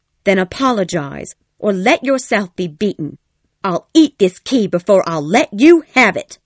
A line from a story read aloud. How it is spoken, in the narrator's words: said angrily